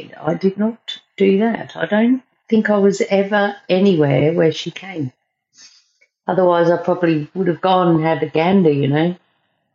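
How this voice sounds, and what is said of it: South Australian accent, sounds English. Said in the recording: “my accent. Oh, people say, what part of England are you from? I'm not from England. I'm just from South Australia”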